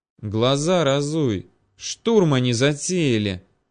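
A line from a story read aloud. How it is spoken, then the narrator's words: Nervous hissed reply. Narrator (Russian): прошипел в ответ нервничавший парень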